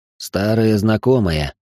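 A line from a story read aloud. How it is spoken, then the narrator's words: Grumble. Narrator (Russian): проворчал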